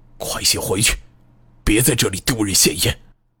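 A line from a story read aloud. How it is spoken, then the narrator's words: Quiet grim scolding. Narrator (Chinese): 王维仁阴沉着脸，小声责备道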